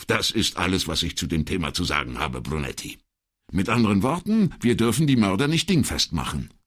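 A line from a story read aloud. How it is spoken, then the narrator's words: Curt question. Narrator (German): fragte Brunetti schroff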